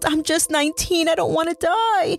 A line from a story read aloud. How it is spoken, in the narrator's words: Michelle yelled